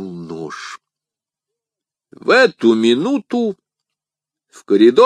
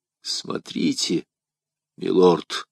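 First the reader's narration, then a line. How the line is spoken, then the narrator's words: Gloomy. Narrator (Russian): сказал он мрачно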